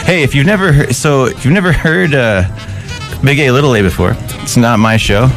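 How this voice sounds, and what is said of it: Slightly out of breath. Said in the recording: “I'm a little out of breath. I ran here.”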